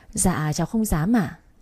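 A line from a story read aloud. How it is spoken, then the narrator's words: Smiling. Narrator (Vietnamese): Cái Thúy mỉm cười tủm tỉm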